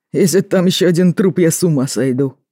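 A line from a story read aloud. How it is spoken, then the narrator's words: Grim joke. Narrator (Russian): мрачно пошутил Артём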